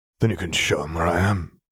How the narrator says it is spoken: Arcturus growled

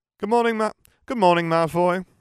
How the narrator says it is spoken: Harry exclaimed cheerfully

